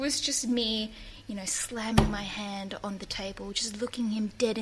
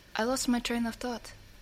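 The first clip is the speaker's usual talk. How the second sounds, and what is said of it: Put-on Czech accent. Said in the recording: “in a Czech accent”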